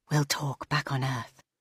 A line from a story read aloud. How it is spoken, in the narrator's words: the mind whispered inside her